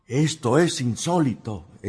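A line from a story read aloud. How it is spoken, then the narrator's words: Student exclaiming. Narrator (Spanish): exclamó un alumno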